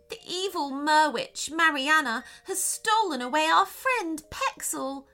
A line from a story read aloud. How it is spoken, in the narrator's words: cried the second mermaid